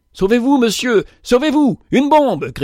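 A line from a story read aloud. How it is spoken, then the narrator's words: Shouting. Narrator (French): cria-t-il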